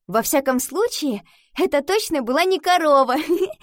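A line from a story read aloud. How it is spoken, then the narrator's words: Answer, then laughter. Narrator (Russian): ответила она и рассмеялась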